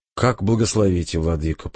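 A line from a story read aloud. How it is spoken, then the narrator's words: Meek sigh. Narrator (Russian): покорно вздохнул Александр Павлович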